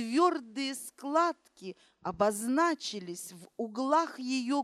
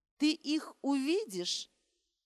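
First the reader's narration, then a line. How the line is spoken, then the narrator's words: Plain. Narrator (Russian): ответила Фролова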